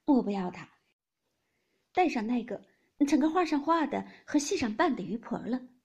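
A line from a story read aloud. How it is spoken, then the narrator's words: Laughing. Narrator (Chinese): 黛玉笑道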